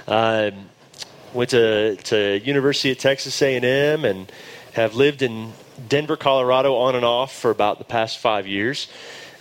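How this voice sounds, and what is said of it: Texan drawl. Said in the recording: “I grew up in Dallas, Texas. You will hear my drawl.”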